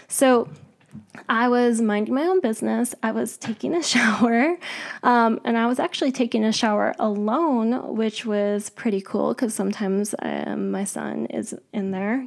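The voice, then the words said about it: Hoarse voice. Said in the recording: “I wish my voice wasn't so hoarse.”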